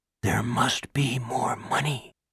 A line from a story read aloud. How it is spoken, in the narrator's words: Pete could hear his own house whispering